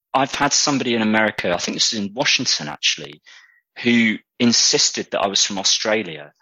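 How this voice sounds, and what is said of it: Strong British accent. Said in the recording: “most American people I've spoken to just absolutely love the British accent. It always makes me realise, like, how strong my British accent can be”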